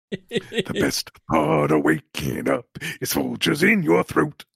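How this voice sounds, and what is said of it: Harsh, throat-straining character voice. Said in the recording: “you're going to need a lozenge after doing that voice again.”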